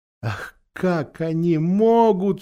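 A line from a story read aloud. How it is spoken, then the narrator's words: Sobbing. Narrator (Russian): всхлипнул Люси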